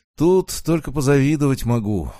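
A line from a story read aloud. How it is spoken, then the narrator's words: Sigh. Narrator (Russian): вздохнул он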